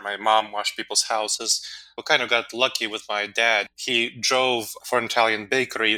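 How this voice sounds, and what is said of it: Speaks with a foreign accent. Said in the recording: “they chose to drop their accent. Obviously, I chose not to ... I chose to keep my accent ... a foreign accent”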